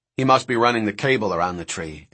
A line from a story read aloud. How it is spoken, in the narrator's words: Eddie said